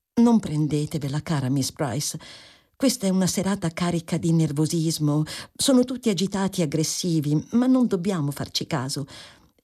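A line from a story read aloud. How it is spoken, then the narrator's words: Affectionate whisper. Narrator (Italian): dicendole in un affettuoso sussurro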